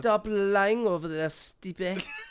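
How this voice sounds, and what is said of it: Ngannou impression, French accent. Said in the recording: “That probably was a terrible impersonation. ... he's French.”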